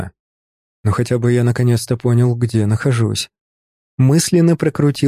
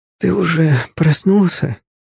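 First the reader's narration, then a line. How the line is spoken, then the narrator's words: Sleepy, slightly hoarse voice. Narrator (Russian): Раздался сзади сонный, слегка хрипловатый голос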